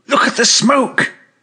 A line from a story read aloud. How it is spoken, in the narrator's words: cried